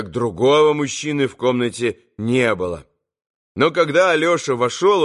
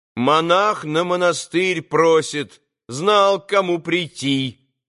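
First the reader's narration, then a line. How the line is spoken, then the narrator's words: Loud young woman. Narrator (Russian): громко между тем проговорила стоявшая в левом углу девица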